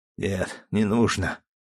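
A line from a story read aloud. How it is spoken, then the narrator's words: Quiet reply. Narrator (Russian): тихо ответил Андрей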